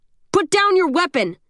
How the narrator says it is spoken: the guard screams at the end of the hallway

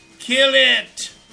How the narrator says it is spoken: Phineas shouted

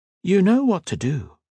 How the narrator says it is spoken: she replied, her tone remaining light and friendly

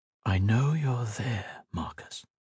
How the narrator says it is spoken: a voice said softly

